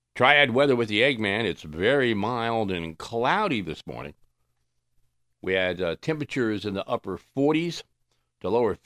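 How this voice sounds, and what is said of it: Serious radio announcer voice. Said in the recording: “Got to get my serious radio voice to do this”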